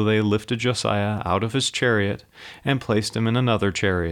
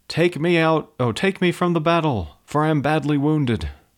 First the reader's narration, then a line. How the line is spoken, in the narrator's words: He cried out to his men